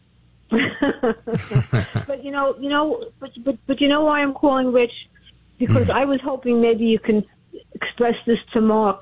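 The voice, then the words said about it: Brooklyn accent. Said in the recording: “I remember your voice. It sounds like you're from Brooklyn.”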